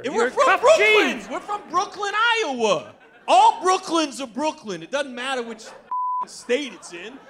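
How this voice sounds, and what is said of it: Brooklyn accent. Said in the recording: “Why do you have a Brooklyn accent?”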